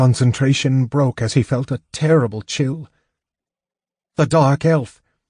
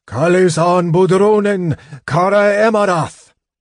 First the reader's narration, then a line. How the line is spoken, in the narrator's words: From the other side of the door came a wail of disappointment, failure